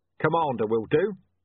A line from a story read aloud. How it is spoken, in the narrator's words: said Vimes sharply